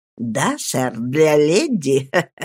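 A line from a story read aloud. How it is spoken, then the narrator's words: Laughing reply. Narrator (Russian): смеясь, ответил Джек Мелдон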